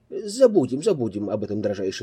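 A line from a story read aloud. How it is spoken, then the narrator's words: Plain. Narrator (Russian): сказал я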